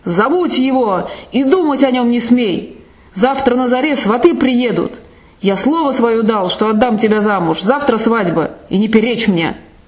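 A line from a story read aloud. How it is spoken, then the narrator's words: Furious shout. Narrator (Russian): Гасак закричал в ярости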